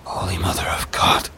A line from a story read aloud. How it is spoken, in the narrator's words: she whispers, her voice trembling